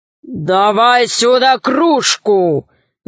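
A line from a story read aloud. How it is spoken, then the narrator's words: Ogre's growl. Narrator (Russian): зарычал людоед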